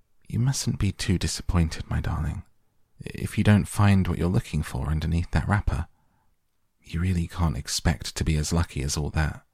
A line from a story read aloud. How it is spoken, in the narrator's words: Bucket said gently